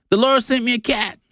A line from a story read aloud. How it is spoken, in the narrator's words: she shouted